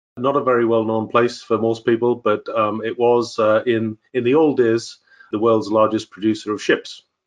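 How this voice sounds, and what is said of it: Northeast English accent. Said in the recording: “that is not a Texas accent. ... I'm originally from a place in the northeast of England called Sunderland.”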